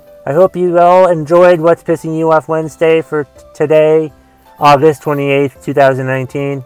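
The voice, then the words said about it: Raspy voice from a cold. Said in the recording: “I'm battling a cold ... my voice is a little raspy”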